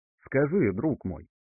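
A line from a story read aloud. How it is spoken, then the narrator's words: Calm question. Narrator (Russian): спросила Края Хель уже совершенно спокойным голосом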